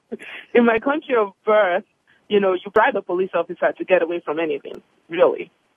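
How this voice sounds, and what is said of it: Foreign immigrant accent. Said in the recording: “as if my accent didn't give it away that I'm an immigrant”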